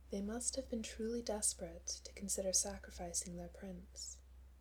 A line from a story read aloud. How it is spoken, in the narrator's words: she says gently